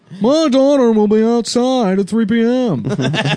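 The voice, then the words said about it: Impression of Michael Bennet. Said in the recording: “Michael Bennett, who just sounds like fucking Cameron doing an impression of Sloane's father in Ferris Bueller's Day Off”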